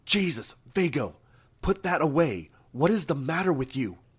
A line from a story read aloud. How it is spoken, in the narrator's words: one of the figures yelled in Isra's voice